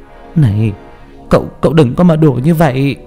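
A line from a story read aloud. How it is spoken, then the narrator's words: Mother's trembling voice. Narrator (Vietnamese): Mẹ tôi run rẩy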